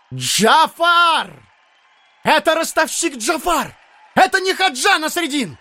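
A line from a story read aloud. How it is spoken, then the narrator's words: Crowd yelling. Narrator (Russian): люди вдруг заорали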